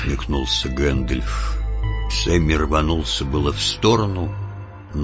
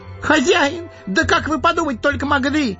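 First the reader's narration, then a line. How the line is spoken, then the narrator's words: Gardener's wail. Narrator (Russian): завопил садовник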